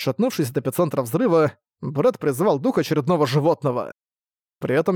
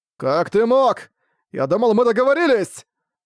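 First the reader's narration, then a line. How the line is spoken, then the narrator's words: Shouting. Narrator (Russian): прокричал он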